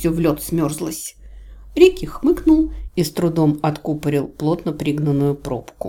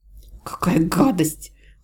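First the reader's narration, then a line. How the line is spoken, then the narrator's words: Heartfelt tearful whisper. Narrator (Russian): от души прошептала я, сморгивая слезы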